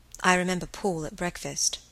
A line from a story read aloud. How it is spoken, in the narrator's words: said Helen quietly